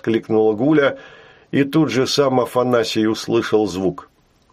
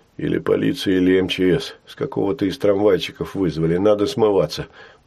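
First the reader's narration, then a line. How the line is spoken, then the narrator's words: Muttered. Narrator (Russian): пробормотал Афанасий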